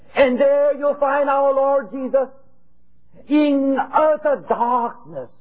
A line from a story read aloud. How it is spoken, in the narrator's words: he cried